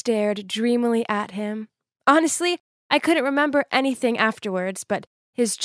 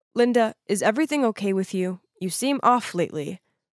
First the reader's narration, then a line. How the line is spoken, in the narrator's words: in a serious tone, he said